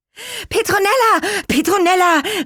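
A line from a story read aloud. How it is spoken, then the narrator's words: Excited group calling. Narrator (German): riefen sie aufgeregt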